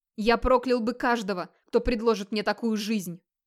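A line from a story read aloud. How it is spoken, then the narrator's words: Hoarse shouting, choking, coughing. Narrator (Russian): Сипло кричал Хроор, задыхаясь и кашляя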